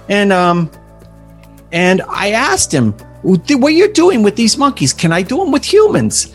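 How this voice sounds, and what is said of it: Put-on New York accent. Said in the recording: “this is my best New York accent.”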